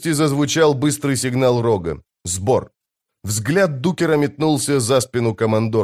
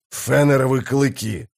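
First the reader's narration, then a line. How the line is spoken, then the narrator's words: Growling. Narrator (Russian): зарычал Блистик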